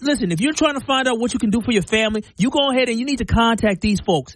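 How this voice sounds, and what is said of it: Put-on New York accent. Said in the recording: “I had a really good New York accent ... I had a whole New York accent that I did for the commercial”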